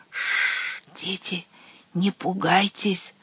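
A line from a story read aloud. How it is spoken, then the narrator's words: Distant eerie whisper. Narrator (Russian): прошептало оно оттуда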